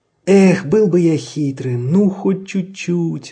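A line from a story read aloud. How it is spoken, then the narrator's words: Sigh. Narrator (Russian): вздохнул Людвиг XIV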